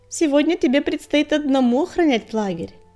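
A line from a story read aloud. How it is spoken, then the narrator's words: Snort. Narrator (Russian): фыркнула песчаная буря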